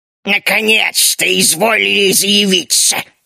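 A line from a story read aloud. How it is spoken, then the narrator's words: Creaky voice. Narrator (Russian): проскрипел он вместо приветствия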